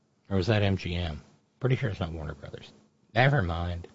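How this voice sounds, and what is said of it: Usual voice. Nothing is said of it.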